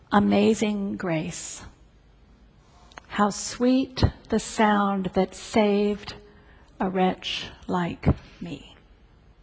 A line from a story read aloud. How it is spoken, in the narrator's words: Friends, family, neighbors, began to sing softly but assuredly